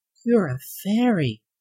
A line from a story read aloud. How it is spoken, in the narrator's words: she whispered, so low no one else heard her voice